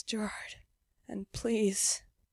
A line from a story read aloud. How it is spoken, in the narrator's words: moans softly and whispers